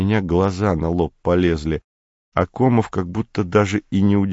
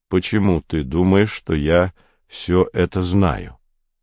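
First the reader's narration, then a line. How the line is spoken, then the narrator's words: Calm question. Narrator (Russian): спросил он спокойно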